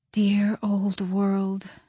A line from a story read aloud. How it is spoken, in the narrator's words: she murmured